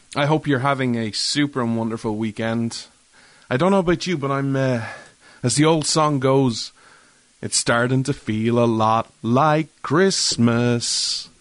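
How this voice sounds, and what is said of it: Irish accent. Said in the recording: “This Irishman ... you come for the accent”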